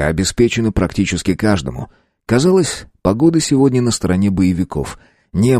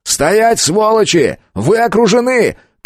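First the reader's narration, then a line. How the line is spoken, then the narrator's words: Shouting. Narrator (Russian): крикнул я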